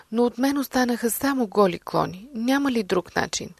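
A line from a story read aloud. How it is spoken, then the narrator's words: Crying. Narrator (Bulgarian): Бамбуковата гора проплакала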